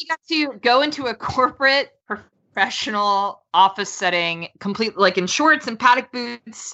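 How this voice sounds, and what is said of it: Usual voice. Nothing is said of it.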